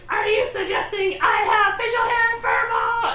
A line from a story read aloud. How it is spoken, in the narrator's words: Miss Piggy yells